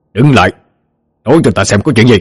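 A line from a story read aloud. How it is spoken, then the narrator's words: Loud shout. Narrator (Vietnamese): Ông hét lớn vào mặt hắn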